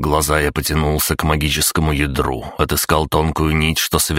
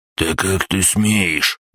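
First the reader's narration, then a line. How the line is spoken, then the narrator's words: Angry hiss. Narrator (Russian): гневно прошипел Русый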